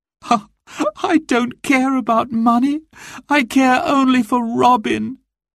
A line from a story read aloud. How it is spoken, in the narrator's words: she sobbed